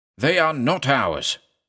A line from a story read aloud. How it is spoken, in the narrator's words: thundered